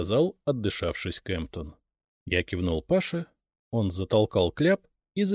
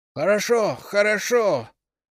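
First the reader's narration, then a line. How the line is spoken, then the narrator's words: Tearful shout. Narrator (Russian): он закричал со слезами в голосе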